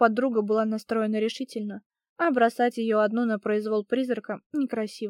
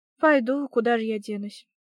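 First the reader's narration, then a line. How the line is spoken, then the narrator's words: Sighing. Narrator (Russian): вздохнула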